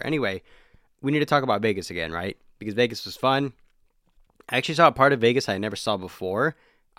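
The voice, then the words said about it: Dry, hoarse voice. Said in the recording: “it's my voice box. That's what it is. My voice box is dry. ... Laryngitis,”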